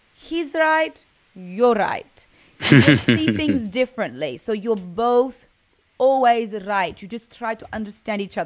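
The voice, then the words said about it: Attempted Russian accent. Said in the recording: “I like it with the accent too. That really adds to it. ... I tried. I think it's a little bit different to that ... I don't really know how to speak with a Russian accent”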